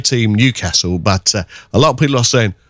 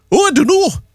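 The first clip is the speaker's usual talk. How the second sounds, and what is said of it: Failed attempt at Geordie accent. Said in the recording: “that was meant to be a Geordie accent. It went wrong.”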